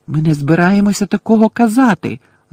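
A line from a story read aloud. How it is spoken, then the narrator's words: Shouting. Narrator (Ukrainian): закричав Гаррі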